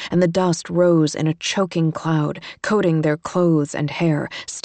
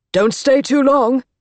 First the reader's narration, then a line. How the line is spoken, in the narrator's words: he shouted